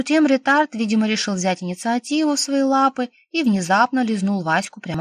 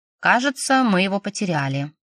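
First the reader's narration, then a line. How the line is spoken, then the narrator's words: Dry. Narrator (Russian): сухо прокомментировала я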